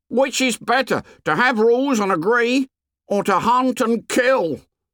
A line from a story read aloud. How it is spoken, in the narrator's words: Piggy shouted again